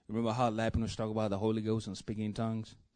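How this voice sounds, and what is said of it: Speaks English with a noticeable accent. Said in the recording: “With my accent ... It just got flavor to it”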